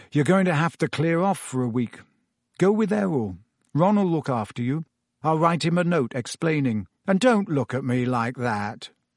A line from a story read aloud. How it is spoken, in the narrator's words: he said gloomily